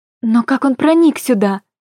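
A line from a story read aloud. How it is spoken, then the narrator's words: Strained, forced out. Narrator (Russian): выдавила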